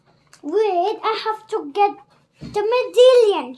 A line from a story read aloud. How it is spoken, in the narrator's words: shouted Jack